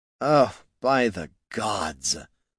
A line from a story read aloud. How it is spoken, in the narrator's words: said the wizard with a sigh